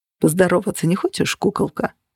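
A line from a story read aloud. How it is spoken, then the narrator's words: Purred. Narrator (Russian): промурлыкал Джен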